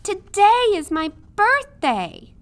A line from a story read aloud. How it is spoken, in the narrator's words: Midge called out